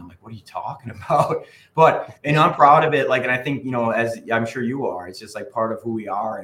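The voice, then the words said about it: Strong Wisconsin accent. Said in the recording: “I have a strong Wisconsin accent.”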